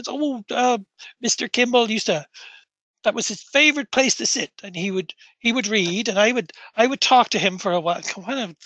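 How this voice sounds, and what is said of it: Put-on Norfolk accent. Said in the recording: “I always do like a Norfolk fucking accent. ... It's like all common laborers are from Norfolk. ... my accent was going crazy there”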